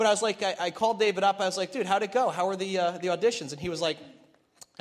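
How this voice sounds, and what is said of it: Usual voice. Nothing is said of it.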